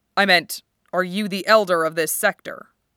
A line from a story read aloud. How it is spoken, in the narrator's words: Wu Fei elaborated stiffly